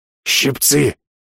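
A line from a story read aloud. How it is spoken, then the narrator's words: Hoarse wheeze. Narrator (Russian): прохрипел кулинар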